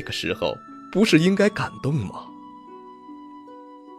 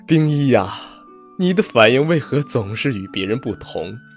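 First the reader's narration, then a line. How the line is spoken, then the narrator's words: Startled, helpless soft laugh. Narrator (Chinese): 魏凌风先是一愣，随即是无奈的轻笑，…道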